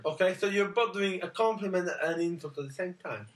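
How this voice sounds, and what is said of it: Italian accent. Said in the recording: “Hello, I'm Italian. ... your accent is fantastic.”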